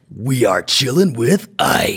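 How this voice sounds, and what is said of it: Gritty late-night radio announcer voice. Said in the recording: “radio voice ... You've got the late night radio voice ... You've got the grit.”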